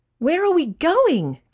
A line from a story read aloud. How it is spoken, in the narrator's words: cried Ryan